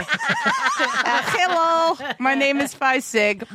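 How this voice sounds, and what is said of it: Put-on Russian accent. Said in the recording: “Look at our accents. We are on point. ... I'm doing a Russian Phi Sig accent.”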